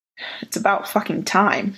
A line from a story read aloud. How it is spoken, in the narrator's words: muttered